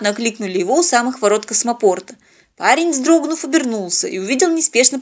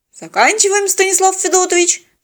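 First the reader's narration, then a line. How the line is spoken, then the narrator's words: Brisk report. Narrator (Russian): бодро отрапортовал пилот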